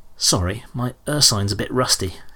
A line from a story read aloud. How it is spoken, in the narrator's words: he said